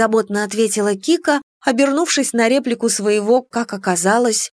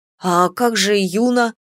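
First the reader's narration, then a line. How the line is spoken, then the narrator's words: Dragon's bewildered question. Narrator (Russian): растерянно поинтересовался дракон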